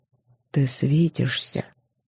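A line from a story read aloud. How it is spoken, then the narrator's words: Quiet. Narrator (Russian): тихо сказал он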